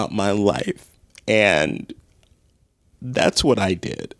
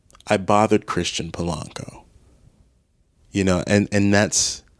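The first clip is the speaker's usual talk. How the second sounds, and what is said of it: Emotional, voice choking up. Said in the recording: “I didn't know I was going to get emotional about this”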